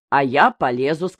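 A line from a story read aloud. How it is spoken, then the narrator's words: Plain. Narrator (Russian): сказал Арсентий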